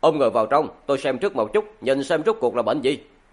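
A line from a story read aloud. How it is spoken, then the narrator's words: Angry. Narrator (Vietnamese): trong lòng Trần Phàm tức giận nói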